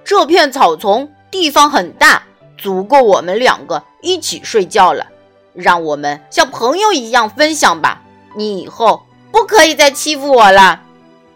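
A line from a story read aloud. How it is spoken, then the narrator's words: Brave, loud. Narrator (Chinese): 花豹深呼吸一下，鼓起勇气，大声对狮子说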